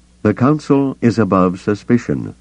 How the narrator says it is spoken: Mon Mothma said, her voice turning chilly

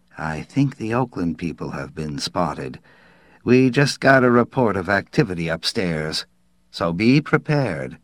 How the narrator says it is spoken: Ben Fenimore said softly

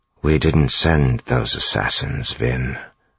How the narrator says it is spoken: Zane said quietly

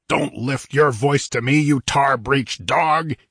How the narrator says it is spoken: he roared in a voice as gusty as the sea wind

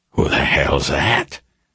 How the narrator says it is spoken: McGrath whispered

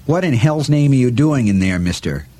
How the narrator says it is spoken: Out loud he barked

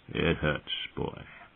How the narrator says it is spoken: he said softly

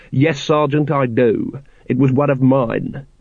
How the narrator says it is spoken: said coldly

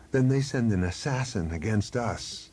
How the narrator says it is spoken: he said bitterly

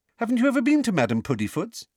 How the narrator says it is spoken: She said brightly

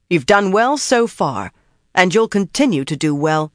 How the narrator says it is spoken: told firmly

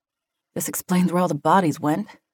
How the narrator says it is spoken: she muttered

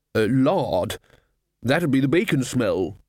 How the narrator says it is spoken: said the lecturer

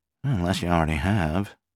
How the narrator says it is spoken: Stuart Marks murmured

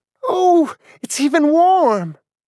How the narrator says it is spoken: she exclaimed

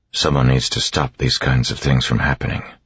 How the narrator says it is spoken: he said quietly, and Vin was struck by the intensity in his voice

